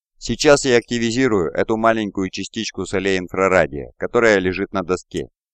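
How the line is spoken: Businesslike tone. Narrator (Russian): деловитым тоном произнес Сокол

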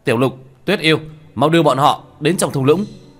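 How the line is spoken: Loud shout. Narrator (Vietnamese): Tiểu Thất hét lớn một tiếng

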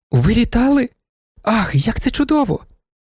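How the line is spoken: Exclaiming. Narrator (Ukrainian): вигукнула панна Феліція

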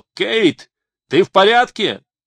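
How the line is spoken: Shouted. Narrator (Russian): Он закричал

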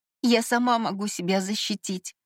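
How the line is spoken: Trembling reassurance. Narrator (Russian): дрожащим голосом заверила я

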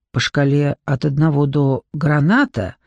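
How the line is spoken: Loud clear whisper. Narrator (Russian): заговорила тем же громким, отчетливым шепотом

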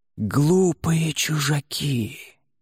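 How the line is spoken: Audible whisper. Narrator (Russian): шептала она, но в наступившей тишине воины слышали каждое ее слово

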